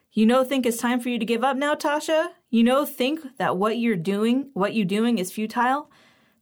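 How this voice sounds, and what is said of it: Thick accent, statements sound like questions. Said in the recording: “her accent is thicker than usual, and every statement is a question ... She draws out the first syllable of futile for a second too long”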